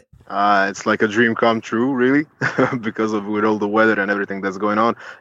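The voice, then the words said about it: Balkan-accented English. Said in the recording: “that Balkan accent of”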